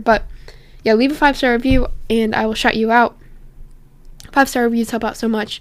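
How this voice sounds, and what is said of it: Strained, fading voice. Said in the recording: “my voice is really dying here”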